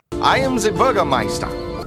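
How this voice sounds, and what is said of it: Bad fake German accent. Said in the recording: “using a bad German accent... everybody's real bad accent”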